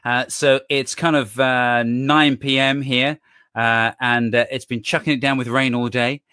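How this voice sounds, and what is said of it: British accent. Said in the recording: “I'm in the UK, as you can tell by the accent.”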